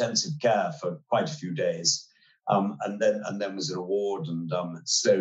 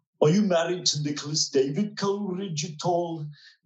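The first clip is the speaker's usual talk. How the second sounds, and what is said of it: Imitates another person's voice. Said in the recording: “Actually, am I going to do my voice?”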